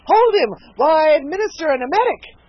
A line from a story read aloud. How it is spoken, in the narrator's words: the surgeon cried eagerly